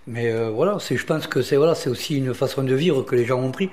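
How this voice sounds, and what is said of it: Southern French accent. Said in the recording (French): “moi, je suis un mec du Sud ... on a reconnu votre accent.”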